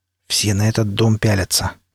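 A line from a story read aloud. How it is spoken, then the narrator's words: Quiet, out of the mouth's corner. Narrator (Russian): краем рта негромко сказал пригоршня, который из башни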